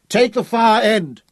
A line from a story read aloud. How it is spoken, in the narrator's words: he shouted at Abberley